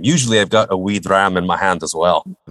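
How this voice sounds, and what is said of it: Put-on accent. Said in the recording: “Was that accent any good? ... Too polite.”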